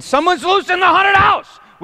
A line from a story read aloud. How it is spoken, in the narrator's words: there were probably some angry wet people at the end of the ride screaming